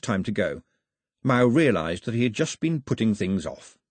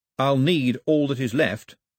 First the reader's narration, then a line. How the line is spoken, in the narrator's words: said Mao firmly